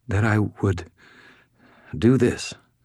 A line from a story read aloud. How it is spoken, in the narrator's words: she said in a shaking voice